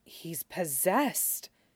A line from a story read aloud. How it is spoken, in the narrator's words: Dame Leary whispered, in the same tone usually reserved for talk of the tower